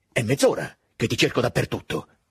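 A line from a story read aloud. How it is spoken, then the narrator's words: Exclaimed. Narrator (Italian): esclamò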